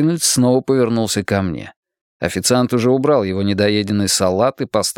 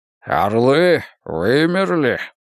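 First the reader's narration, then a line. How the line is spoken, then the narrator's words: Grumbling. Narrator (Russian): проворчал Морпурго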